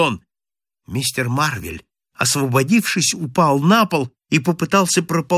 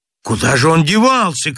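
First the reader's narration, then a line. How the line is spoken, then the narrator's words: Shout. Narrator (Russian): крикнул Чернобородый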